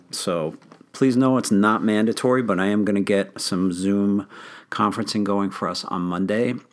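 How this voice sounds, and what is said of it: Slightly strained, failing voice. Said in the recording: “I'm losing my voice a little bit today”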